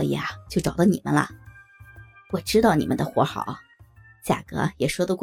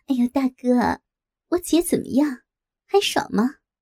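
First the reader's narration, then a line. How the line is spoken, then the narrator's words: Lewd laughing. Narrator (Chinese): 我浪笑着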